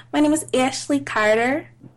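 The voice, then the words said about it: Impression of a friend's voice. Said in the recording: “I always do an impersonation of her.”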